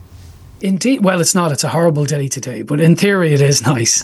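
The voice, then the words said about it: Irish Dublin accent. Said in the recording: “greetings from Dublin, Ireland ... Oh, we just like the accent ... that's funny the way you say it. I love that.”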